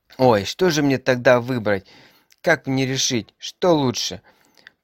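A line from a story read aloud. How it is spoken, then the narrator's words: Groaned. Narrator (Russian): простонала Пеппи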